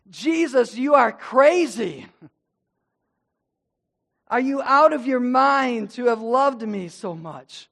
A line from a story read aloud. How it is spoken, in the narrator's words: shouted into the darkness